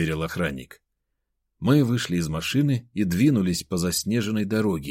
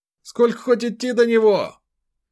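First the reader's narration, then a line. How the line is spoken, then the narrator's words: Shouting. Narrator (Russian): прокричал Ефим Прохорович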